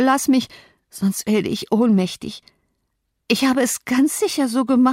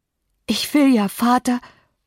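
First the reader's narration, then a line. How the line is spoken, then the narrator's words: Panting. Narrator (German): keuchte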